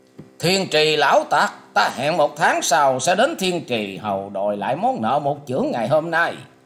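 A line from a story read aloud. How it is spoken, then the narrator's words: Wounded man's loud shout. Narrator (Vietnamese): người che mặt tựa hồ bị thương không phải nhẹ nên thét to lên rằng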